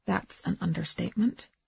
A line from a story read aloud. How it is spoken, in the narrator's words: he said quietly